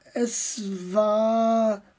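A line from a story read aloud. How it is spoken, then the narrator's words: Slow beginning. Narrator (German): begann er langsam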